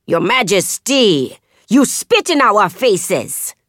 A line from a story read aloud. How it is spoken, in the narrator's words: Jokoye roars